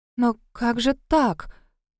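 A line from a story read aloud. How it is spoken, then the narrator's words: Confused tearful mutter. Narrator (Russian): Растерянно пробормотала Кэсси, и в ее прекрасных зеленых глазах заблестели слезы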